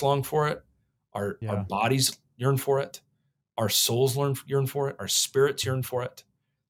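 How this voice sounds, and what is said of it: Fiery preacher-style delivery. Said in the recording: “You're talking like a real radical right-wing pastor over there”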